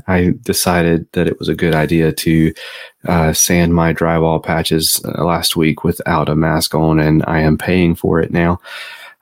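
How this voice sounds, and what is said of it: Deep, congested voice. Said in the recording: “my sultry, deep voice ... I am quite congested”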